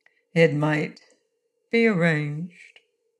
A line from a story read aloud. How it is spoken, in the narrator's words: said Durand in a thoughtful tone